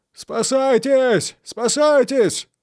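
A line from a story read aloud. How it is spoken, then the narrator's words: Terrified soldiers screaming. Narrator (Russian): вопили солдаты, охваченные ужасом при виде этого страшного зрелища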